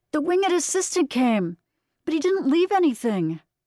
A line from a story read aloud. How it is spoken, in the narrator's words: Estella shouting